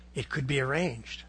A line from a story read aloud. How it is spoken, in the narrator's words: whispered softly